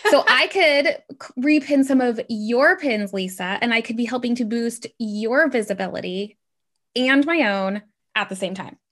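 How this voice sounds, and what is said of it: Excited, energetic voice. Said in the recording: “you can probably tell by my voice, I'm getting super excited”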